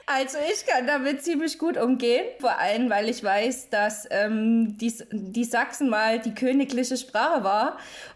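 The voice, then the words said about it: Saxon (Vogtland) German accent. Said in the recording (German): “du aus Sachsen, aus dem schönen Vogtland kommst... Dialekt... eine, die aus Sachsen kommt”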